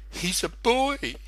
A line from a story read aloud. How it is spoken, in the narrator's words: snorted Eleanor excitedly